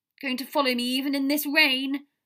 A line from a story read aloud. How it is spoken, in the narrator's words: Potter yelled